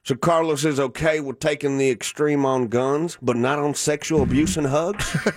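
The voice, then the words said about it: Put-on Southern accent. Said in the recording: “I put a southern accent to him just because it was funnier”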